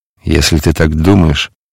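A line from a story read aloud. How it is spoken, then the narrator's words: Confused mutter. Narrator (Russian): пробормотал растерянный Варавва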